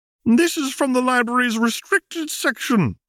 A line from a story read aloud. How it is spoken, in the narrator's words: she gasped